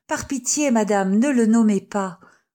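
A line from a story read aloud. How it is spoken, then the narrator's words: Exclaimed. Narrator (French): s'écria Mademoiselle Lesterel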